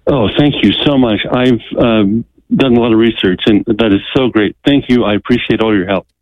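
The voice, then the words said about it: Relieved-sounding voice. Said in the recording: “I can hear the relief in your voice”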